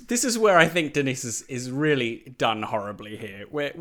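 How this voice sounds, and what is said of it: Usual voice. Nothing is said of it.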